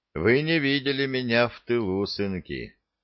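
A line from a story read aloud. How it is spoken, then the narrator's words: Slightly sad. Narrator (Russian): немного печально произнес Джексон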